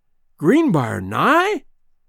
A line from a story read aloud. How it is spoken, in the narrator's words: exclaimed